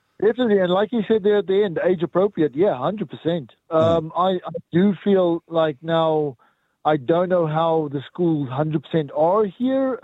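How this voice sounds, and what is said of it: South African accent. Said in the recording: “I detect an accent. ... South Africa.”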